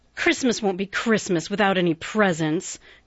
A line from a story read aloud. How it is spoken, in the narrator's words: grumbled Joe